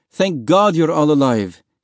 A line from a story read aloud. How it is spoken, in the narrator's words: he cried